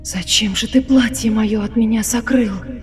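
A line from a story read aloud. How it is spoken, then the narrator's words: Whisper louder than thunder. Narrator (Russian): Шепотом грома громче спросила его Милава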